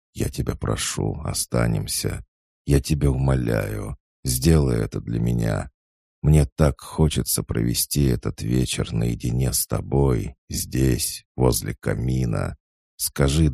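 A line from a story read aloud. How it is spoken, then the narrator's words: Murmured. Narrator (Russian): бормотал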